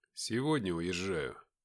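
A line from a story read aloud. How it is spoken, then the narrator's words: Mumbled. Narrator (Russian): пробормотал я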